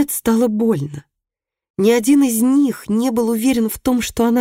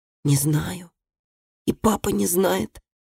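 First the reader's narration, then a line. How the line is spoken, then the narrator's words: Quiet boy. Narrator (Russian): тихо сказал мальчик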